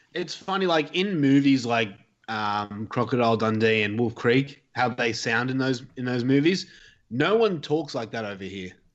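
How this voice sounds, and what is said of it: Mild Australian accent. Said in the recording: “I don't think that you have that thick of an Australian accent”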